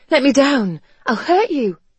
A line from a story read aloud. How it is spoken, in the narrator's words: she gasped